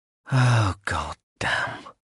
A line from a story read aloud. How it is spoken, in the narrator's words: Smar said quietly